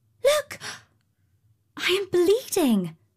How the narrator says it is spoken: she exclaimed

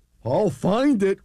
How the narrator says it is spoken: cried Horton

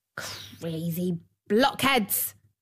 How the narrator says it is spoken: snapped the dwarf

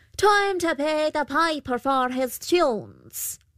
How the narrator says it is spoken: The Pooka called out

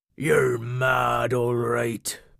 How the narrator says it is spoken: grumbled Cobby

